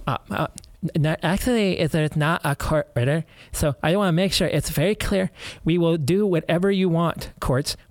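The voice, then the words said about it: Meek, timid mocking voice. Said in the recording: “do it my most beta voice”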